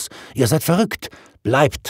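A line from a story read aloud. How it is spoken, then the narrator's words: Calling out. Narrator (German): rief ich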